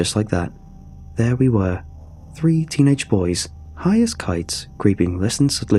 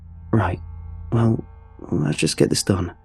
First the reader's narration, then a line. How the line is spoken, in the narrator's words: said meekly